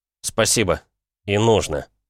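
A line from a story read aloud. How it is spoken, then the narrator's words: Plain. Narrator (Russian): ответил я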